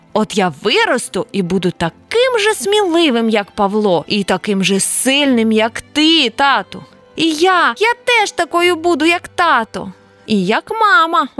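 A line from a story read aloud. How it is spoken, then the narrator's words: Exclaimed. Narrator (Ukrainian): вигукнула Оля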